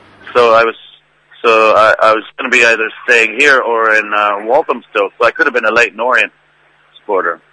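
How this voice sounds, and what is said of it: Irish-sounding mixed accent. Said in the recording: “your Irish accent is superb ... for a Canadian ... the combination makes a sort of Irishy type accent”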